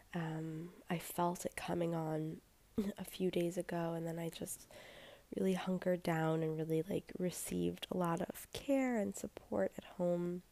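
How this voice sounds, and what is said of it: Voice sounds like recovering from cold. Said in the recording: “I don't know if you can hear it in my voice, but I am in the middle of healing from a cold”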